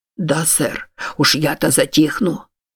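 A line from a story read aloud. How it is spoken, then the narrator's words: Muttered. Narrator (Russian): пробормотал Приам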